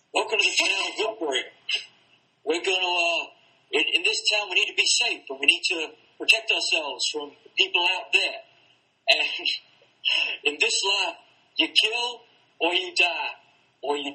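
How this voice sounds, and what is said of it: Impression of the Governor. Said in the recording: “I think I can do a pretty good governor accent”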